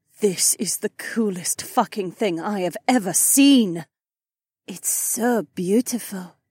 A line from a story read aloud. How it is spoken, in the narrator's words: Haywan breathed